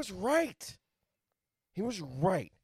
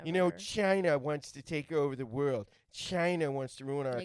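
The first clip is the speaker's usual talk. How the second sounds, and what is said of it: Imitates another person's voice. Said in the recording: “can you please do that impression? ... I want to hear Trump say”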